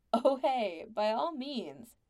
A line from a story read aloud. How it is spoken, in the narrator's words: Jill laughed at him